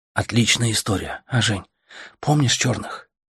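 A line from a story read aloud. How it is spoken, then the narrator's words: Whispering. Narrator (Russian): шептал Артем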